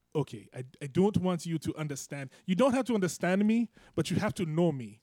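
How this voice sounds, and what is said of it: Put-on African accent. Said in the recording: “I have an African impersonation.”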